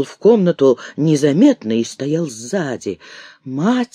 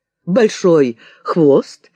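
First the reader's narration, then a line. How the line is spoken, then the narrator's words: Questioning, then laughing. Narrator (Russian): переспросил будущий Александр III и рассмеялся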